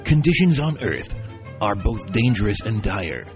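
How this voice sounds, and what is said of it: Dramatic movie trailer narrator voice. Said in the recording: “my best descriptive movie trailer voice”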